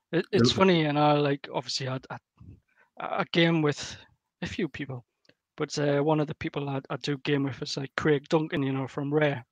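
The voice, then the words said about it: Geordie northeast English accent. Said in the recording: “this is the northeast of England accent, quite famous. The Geordie accent.”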